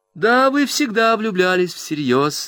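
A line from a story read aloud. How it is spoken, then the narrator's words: Laughing remark. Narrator (Russian): заметила Агнес, засмеявшись снова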